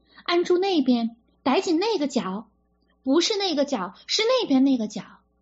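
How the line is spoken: Repeated shouting. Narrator (Chinese): 万红不断叫着

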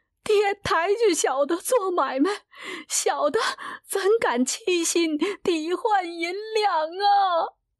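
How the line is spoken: Frightened crying. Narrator (Chinese): 来旺吓得哭起来

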